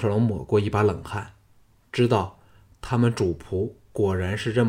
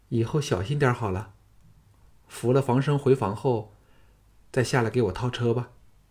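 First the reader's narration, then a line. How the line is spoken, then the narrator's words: Flat, indifferent. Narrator (Chinese): 凤飞淡淡的说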